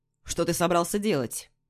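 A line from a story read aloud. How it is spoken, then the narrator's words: Stern question. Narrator (Russian): строго спрашивает он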